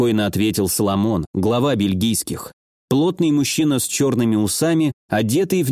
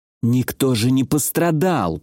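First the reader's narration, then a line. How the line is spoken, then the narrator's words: Through gritted teeth. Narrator (Russian): процедил Феликс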